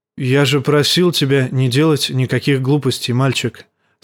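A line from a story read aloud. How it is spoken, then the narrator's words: Plain. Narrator (Russian): сказал старый медведь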